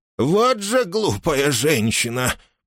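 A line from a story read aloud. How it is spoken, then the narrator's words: Grumbled. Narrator (Russian): пробурчала она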